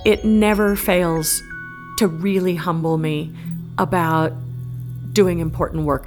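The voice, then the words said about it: Slightly choked-up, emotional voice. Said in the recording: “I'm actually getting a little bit choked up right now”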